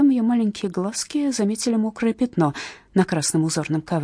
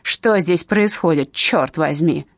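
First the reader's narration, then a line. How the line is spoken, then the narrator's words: Menacing tone. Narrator (Russian): грозно произнесла миссис Су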